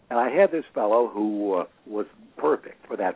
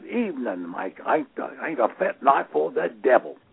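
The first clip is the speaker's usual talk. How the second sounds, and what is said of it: British cockney-style accent. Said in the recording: “somebody with a limey accent”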